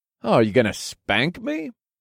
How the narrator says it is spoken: I taunted with a cocky smile

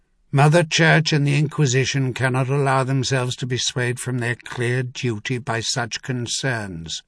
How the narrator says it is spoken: Clintan said, in that same flat, unyielding tone

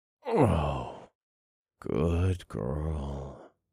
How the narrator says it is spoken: grunted

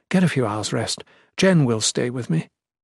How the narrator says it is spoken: she said tenderly

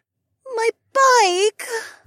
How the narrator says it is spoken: Becca wailed

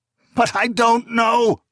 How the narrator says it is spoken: Aengelis cried

